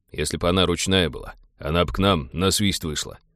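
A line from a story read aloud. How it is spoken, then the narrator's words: Pilot's exasperated grumble. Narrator (Russian): в сердцах проворчал пилот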